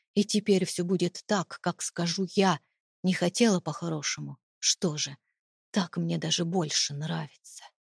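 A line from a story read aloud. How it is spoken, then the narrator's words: Whisper in ear. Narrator (Russian): шепнул он мне в ухо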